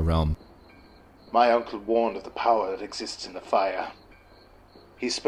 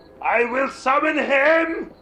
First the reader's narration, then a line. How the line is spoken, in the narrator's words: He shouted